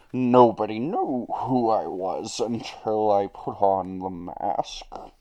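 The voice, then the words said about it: Accurate Bane character voice. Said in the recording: “Bane accent ... It's actually pretty accurate.”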